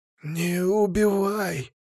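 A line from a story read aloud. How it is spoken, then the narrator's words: Whisper. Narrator (Russian): прошептал ящер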